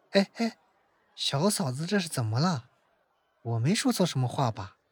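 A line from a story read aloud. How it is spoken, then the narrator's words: Hushed question. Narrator (Chinese): 温志安压低了声音问道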